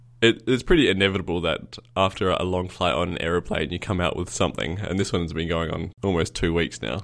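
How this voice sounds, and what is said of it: Congested voice with a cold. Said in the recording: “I've got a bit of a cold as well, so if I sound ridiculous and I'm coughing and wheezing a lot ... I just assumed it was your morning voice”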